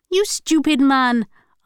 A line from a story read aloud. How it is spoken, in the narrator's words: Alsana shouted back